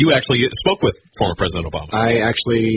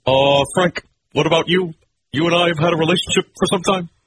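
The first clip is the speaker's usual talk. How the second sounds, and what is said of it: Imitates another person's voice, badly. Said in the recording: “I'm doing a very specific voice right now... I'm doing a very bad job of trying to do, uh, look, President Barack Obama... I'm doing a bad job of it.”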